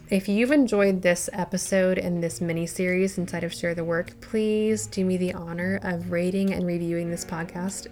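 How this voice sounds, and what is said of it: Tired-sounding voice. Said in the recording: “My voice is tired. Can you tell?”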